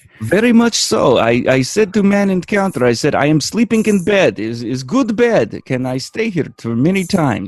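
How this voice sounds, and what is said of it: Put-on Eastern European accent. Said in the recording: “speak with like an Eastern European accent”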